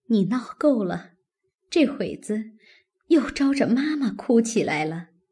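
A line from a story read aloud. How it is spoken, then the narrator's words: Forced laugh. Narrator (Chinese): 宝钗勉强笑道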